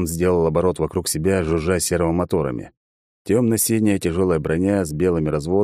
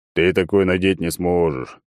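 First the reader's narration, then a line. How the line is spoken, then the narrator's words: Clown's booming drone. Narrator (Russian): прогудел клоун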